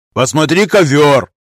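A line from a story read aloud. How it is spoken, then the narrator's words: Captain barking. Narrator (Russian): рявкнул капитан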